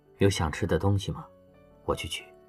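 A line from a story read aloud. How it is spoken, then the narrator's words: Soft question. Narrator (Chinese): 羌然……轻声问了刘亚楠一句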